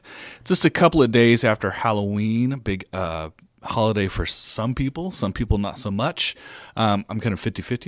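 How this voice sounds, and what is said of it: Slightly sick, throaty voice. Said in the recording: “I'm a little bit slightly under the weather, a little bit of something in my throat”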